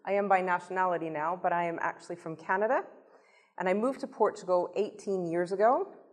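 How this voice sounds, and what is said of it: Non-Portuguese foreign accent. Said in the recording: “you can hear by my voice ... that I am not Portuguese”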